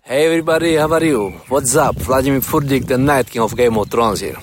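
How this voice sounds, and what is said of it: Hard Eastern European accent. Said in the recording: “He's got a very hard Eastern European accent ... it sounds like an Indian guy”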